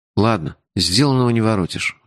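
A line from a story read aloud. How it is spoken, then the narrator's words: Sighing. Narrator (Russian): вздохнул я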